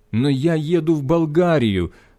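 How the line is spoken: Pleading. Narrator (Russian): взмолился я

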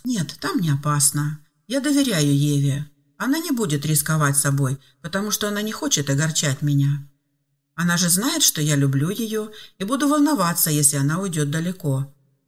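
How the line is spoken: Calm father. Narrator (Russian): спокойно ответил отец

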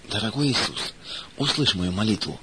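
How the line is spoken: Sobbing whisper. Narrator (Russian): всхлипывая, прошептала она

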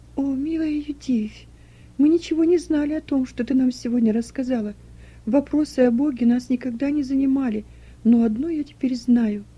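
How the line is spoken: Plain. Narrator (Russian): сказала Руфь

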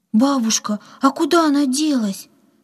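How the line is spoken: Frightened question. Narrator (Russian): испуганно спросила Катя

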